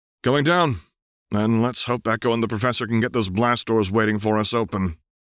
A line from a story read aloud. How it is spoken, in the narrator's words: Vi sighed before saying